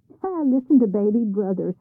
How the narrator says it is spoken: scoffed the others

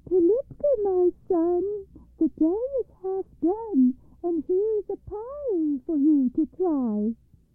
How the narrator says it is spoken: she called to Pilipka in a thin little voice

